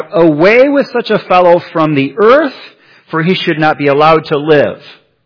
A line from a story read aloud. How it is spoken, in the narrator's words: They cried out